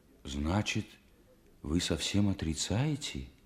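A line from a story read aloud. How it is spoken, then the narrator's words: Horrified near-whisper. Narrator (Russian): Ужасаясь, почти шепотом спросил Стремухов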